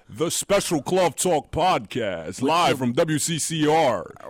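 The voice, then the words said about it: Radio DJ voice. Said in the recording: “put on a radio voice”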